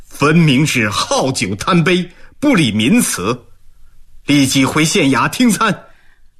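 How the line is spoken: Sneering, stern scolding. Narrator (Chinese): 冷笑数声，声色俱厉地训斥道

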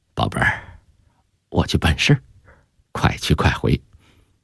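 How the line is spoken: Tender, gentle. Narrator (Chinese): 姚以斌 温柔地说

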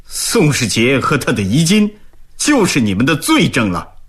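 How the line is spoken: Angry rebuke. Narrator (Chinese): 毛鹏怒斥道

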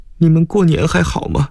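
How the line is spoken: Holding back sobs. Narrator (Chinese): 刘芳芳压抑着哭声

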